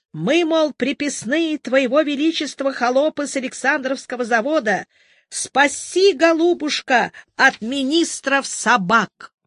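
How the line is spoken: Hoarse sepulchral shout. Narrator (Russian): Клим Соболев крикнул хриплым голосом ровно из могилы

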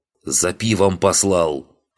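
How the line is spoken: Growling blacksmith. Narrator (Russian): прорычал кузнец

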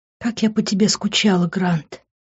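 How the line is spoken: Moaning. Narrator (Russian): простонала Лив

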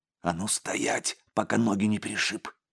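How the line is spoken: Angry hissed whisper. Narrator (Russian): злым шепотом процедил второй

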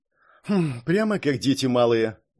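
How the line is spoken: Snorted. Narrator (Russian): фыркнула Келли Кейт

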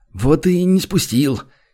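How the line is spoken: Sour smirk, sighing summary. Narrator (Russian): Кисло усмехнулся третий, только что принявший сидячее положение, и, вздохнув, подытожил

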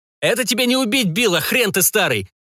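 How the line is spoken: Shout. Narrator (Russian): крикнул Бернар

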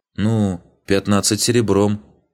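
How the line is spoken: Uncertain question. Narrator (Russian): неуверенно спросила эльфийка

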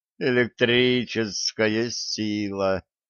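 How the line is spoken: Moaning. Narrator (Russian): Середин застонал

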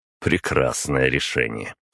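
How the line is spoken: Snorting. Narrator (Russian): хмыкнул

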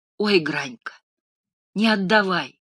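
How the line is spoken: Frightened sigh. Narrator (Russian): вздохнула в испуге Фаина

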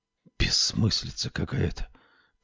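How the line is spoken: Whisper. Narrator (Russian): прошептал Лоуренс

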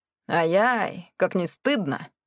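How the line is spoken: Grumbling mutter. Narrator (Russian): пробурчал Милхаус Дрей

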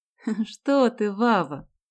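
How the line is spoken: Laughing. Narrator (Russian): засмеялась Галя

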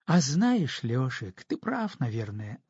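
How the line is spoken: Thoughtful. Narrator (Russian): задумчиво сказала она

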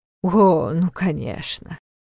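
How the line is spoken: Near groan, exasperated. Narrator (Russian): Неф едва не застонал

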